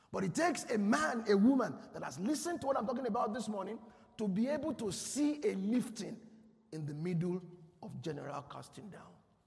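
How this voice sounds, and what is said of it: Shouting preacher voice. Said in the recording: “I know I've been shouting at you ... I notice I've been shouting”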